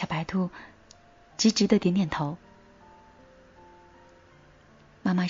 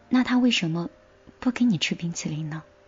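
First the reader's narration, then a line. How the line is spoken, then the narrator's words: Plain. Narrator (Chinese): 小白兔说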